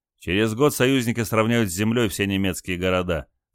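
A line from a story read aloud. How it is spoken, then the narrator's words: Scornful snort. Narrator (Russian): фыркнул Олег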